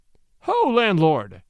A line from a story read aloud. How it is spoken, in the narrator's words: cried the peddler